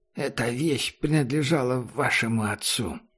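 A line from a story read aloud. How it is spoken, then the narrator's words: Undertone. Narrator (Russian): Сказал вполголоса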